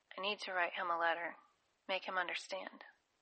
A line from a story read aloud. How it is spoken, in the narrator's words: after swallowing, she whispered